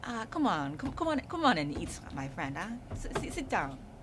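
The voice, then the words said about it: Imitated Nigerian mother's accent. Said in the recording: “Nigerian ... African mom ... that impersonation”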